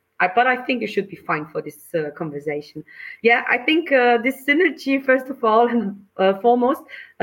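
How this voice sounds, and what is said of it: Austrian accent, slightly hoarse voice. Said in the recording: “the charming Austrian accent ... It's my charming Austrian accent with a bit of bronchitis in the back ... please excuse my voice.”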